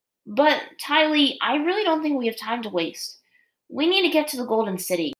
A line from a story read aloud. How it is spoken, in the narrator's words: Aang said, letting out a sigh